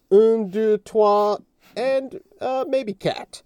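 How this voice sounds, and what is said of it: Attempted French accent. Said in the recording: “the last attempt at a French accent”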